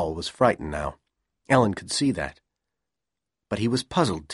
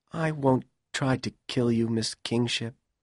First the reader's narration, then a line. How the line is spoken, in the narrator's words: Powell said sadly